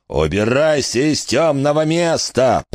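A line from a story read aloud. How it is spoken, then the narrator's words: Roaring in righteous fury. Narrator (Russian): проревел Джимми Джет Фальконер с горящими праведной яростью глазами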